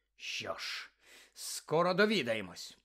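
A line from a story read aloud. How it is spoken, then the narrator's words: Unimpressed growl. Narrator (Ukrainian): прогарчав містер Дігорі, на якого їх пояснення не справили абсолютно жодного враження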